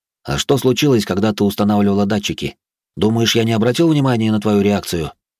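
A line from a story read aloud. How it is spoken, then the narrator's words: Plain. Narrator (Russian): спросил я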